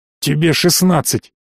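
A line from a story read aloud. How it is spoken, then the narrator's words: Hissed. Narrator (Russian): прошипели в ответ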